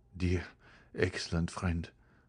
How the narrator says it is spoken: murmured Albert

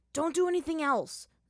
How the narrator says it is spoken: Zuko yelled to Aang

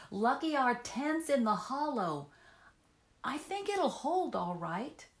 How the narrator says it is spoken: cried back

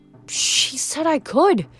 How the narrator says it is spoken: Frank whispered

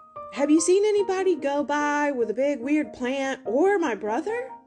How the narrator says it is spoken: he called out

